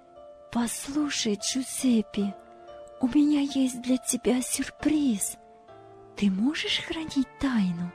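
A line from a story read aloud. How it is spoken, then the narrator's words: Excited whisper. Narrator (Russian): Девушка взволнованно шепотом сказала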